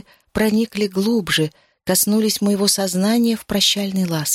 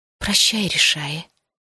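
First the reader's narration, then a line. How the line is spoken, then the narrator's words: Whisper. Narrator (Russian): шепнула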